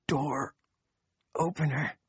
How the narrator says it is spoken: Chef whispered

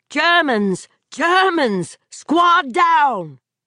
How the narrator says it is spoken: his mind was screaming

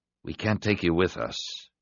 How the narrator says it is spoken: he said quietly

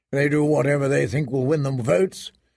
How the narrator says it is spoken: said Mormont

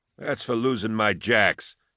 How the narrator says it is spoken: he had said sullenly

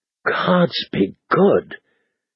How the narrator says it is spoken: he said in a choked voice

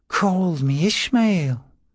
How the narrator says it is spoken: said the man, in an odd, lilting accent

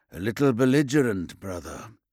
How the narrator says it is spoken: he murmured in a sub-vocalized tone, augmented by his helm, then translated and magnified for Rekor Zathan

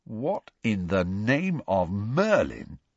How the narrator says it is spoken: said Ron slowly

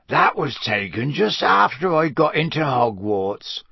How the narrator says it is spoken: Hagrid croaked

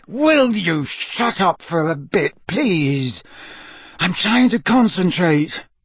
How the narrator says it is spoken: Harry said through gritted teeth

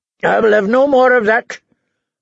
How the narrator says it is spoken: Lord Randall told his wife harshly

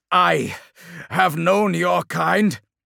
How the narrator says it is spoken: shouted the captain

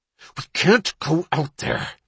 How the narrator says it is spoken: he hissed

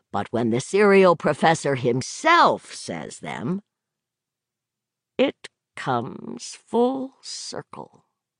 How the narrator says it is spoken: Roger murmured

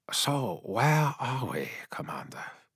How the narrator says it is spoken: Yasugai asked quietly

